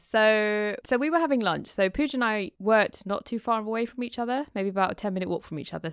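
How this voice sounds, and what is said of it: British accent. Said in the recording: “the wonderful British accent”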